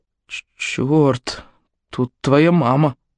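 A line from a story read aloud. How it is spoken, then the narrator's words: Embarrassed mumble. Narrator (Russian): Гаэтан покраснел и пробормотал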